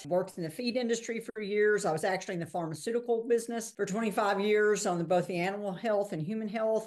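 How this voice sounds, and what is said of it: Texan accent. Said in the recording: “you can tell from my accent, I'm Texan. I am a native Texan.”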